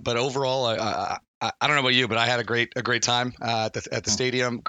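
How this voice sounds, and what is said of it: Voice still recovering, worn out. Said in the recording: “as you can tell, my voice hasn't fully come back yet uh, from from being being real deep in the dub”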